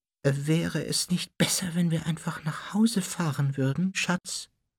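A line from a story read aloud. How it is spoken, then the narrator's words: Shy suggestion. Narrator (German): schlug Tante Petunia mit schüchterner Stimme vor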